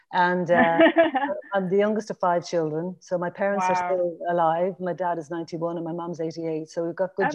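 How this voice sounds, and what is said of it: Irish Dublin accent. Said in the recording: “you might tell from my accent, I grew up in Dublin”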